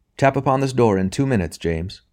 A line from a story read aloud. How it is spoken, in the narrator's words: he said